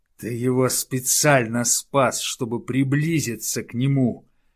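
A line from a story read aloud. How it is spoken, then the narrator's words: Growl from above. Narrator (Russian): снова рыкнул сверху Денте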